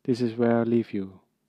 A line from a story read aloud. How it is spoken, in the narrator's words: Firenze murmured